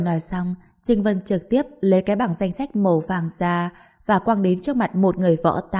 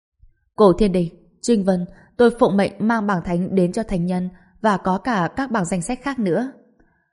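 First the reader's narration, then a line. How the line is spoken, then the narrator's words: Bursting into laughter. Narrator (Vietnamese): Người kia liền bật cười và nói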